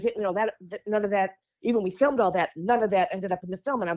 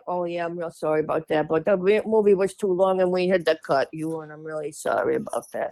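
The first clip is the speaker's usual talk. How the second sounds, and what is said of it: Imitates another person's voice. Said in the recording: “That's such a good Penny Marshall... That's so good at that impression.”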